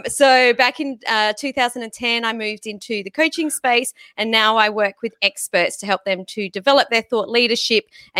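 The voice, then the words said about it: Australian accent. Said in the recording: “my accent is a little different to you guys. I'm from Sydney in Australia.”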